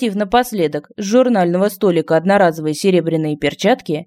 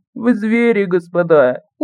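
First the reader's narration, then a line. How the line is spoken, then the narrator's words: Small voice groaning. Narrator (Russian): голосок простонав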